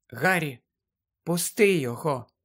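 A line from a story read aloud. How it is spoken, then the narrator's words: Whisper. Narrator (Ukrainian): прошепотіла Герміона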